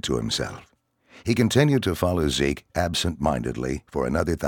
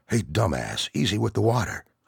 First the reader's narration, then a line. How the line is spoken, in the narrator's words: Zeke scolded in a hushed voice